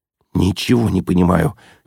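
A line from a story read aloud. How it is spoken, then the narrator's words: Quiet. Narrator (Russian): тихо сказал Ежевикин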